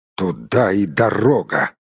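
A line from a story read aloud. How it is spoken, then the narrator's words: Through gritted teeth. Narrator (Russian): процедил Барт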